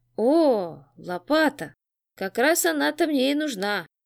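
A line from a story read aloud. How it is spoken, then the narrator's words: Gleeful vampire grin. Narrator (Russian): Радостно оскалился вампир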